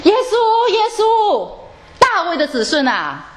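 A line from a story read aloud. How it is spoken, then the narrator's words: Louder continued shouting. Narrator (Chinese): 讨饭的瞎子呢就越发大声的继续的喊叫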